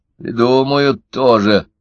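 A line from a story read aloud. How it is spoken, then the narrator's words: Grumbling. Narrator (Russian): проворчала Ксения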